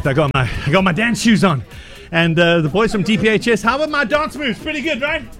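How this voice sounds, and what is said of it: Slightly out of breath. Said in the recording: “a little bit out of breath.”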